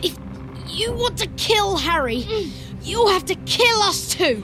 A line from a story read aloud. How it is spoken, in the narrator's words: he said fiercely, though the effort of standing up had drained him of still more colour, and he swayed slightly as he spoke